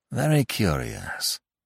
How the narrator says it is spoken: murmured Lavington

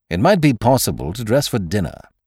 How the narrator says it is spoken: snapped Sime

